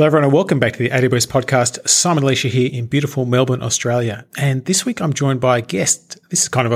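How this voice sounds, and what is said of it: Usual voice. Nothing is said of it.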